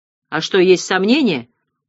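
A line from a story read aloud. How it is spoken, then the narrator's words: Unexpected deep bass question. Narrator (Russian): спросил стажер неожиданным басом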